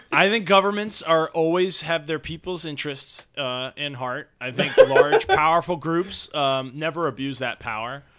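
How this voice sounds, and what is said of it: Sarcastic tone. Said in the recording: “I'm just totally kidding, by the way. You guys know I'm being sarcastic.”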